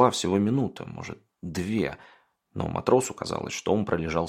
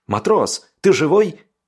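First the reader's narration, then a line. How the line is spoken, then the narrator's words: Surprised joyful shout. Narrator (Russian): с удивлением и радостью выкрикнул один из бойцов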